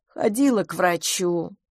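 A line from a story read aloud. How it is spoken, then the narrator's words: Gloomy. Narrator (Russian): мрачно сказала Рози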